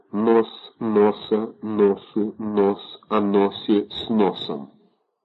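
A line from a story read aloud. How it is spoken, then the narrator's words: Muffled repetitive muttering. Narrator (Russian): твердил приглушенным голосом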